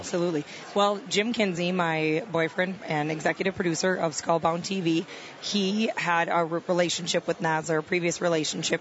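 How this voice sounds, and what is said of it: Midwestern Wisconsin accent. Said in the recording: “I'm from the Midwest, from Wisconsin... I couldn't tell by the accent... You betcha”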